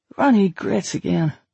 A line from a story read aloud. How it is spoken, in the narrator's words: Ralph muttered